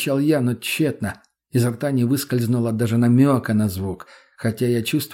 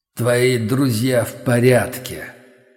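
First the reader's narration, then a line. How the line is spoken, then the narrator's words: Sudden booming voice inside head. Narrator (Russian): Внезапно прогремел чей-то голос в черепе, будто кости завибрировали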